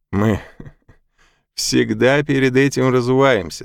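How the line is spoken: Laughing. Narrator (Russian): засмеялся он

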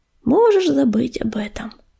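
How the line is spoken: Soft speech. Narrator (Russian): негромко сказала невидимка

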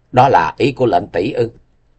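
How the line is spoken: Wry faint laugh. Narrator (Vietnamese): Tình Hải Ma Tử cười nhạt nói

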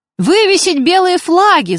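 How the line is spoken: Frightened shout. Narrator (Russian): закричал кто-то испуганным голосом

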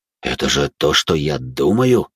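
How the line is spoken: Shocked exhale. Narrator (Russian): потрясенно выдохнул Володя

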